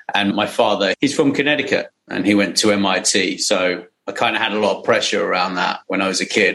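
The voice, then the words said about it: British English accent. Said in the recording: “you might have a little bit of a different accent than I do ... I'm from the UK. I'm from a little village actually in Surrey”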